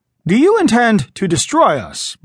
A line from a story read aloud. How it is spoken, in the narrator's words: Briggs asked harshly